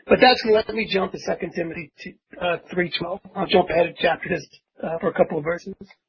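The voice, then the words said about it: Gruff Philadelphia accent. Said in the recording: “this gruff Philadelphia mouth”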